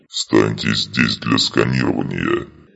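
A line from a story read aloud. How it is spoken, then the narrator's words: Gruff grumble. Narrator (Russian): проворчал один из кроганов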